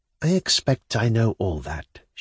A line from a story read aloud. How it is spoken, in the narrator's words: she smiled softly